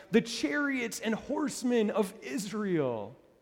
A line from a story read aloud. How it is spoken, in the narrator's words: cried